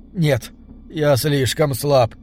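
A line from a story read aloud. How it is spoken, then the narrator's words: Hoarse wheeze. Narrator (Russian): прохрипел Бенедикт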